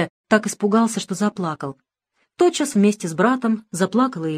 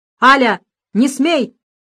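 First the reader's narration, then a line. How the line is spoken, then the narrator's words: Shouting. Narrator (Russian): крикнул ей отец Александр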